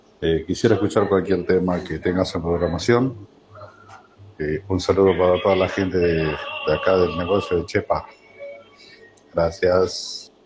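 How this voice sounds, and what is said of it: Deep, polished radio-announcer voice. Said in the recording (Spanish): “Pero qué voz de locutor.”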